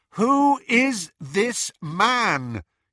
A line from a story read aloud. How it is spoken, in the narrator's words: he repeated loudly